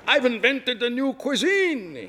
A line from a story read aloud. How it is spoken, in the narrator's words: shouted